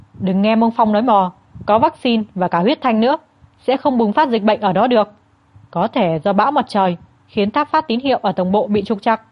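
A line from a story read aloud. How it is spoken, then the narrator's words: Irritated snapping. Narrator (Vietnamese): Lưu Nghiễn tức mình gắt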